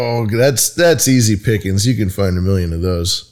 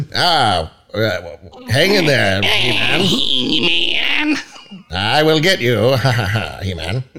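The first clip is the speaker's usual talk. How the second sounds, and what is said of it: Skeletor impression. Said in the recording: “I would have pulled some Skeletor clips ... You just do an impression.”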